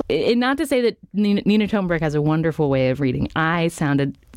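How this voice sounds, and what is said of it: Usual voice. Nothing is said of it.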